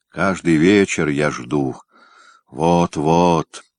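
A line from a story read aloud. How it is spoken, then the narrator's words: Heavy sigh. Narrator (Russian): тяжело вздохнул Трунтай Пронский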